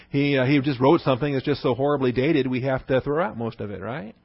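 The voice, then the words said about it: Sarcastic, tongue-in-cheek tone. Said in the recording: “I'm talking tongue-in-cheek here ... the smirk or the grin, or you know my tone of voice”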